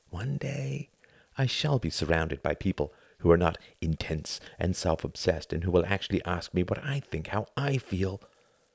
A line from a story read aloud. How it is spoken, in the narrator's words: whispered, thinking despite himself